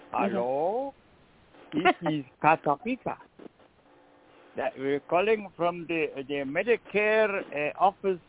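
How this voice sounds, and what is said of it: Heavy foreign accent imitation. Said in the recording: “Most of them come from people from overseas. You know, they got a very heavy accent.”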